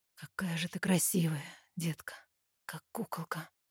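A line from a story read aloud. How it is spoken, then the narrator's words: Hoarse whisper. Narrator (Russian): хрипло шепчет Илья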